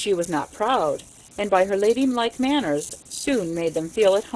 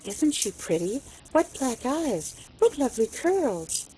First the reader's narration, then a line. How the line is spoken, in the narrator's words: she heard them whisper